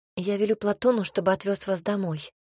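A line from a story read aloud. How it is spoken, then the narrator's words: Quiet offer. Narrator (Russian): предложила тихо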